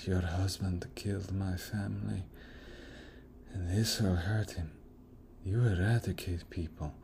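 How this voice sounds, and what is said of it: Rami Malek impersonation. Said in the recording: “even his accent ... that's my Rami Malek impersonation.”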